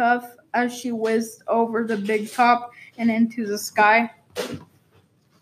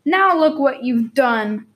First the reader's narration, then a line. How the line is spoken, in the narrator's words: cried the Light Fantastics